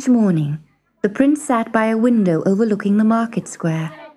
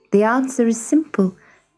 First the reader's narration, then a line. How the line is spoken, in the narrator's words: would reply sadly